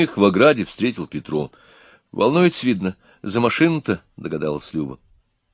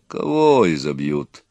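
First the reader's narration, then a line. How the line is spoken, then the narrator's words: Calm deep bass. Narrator (Russian): спокойно басил Петро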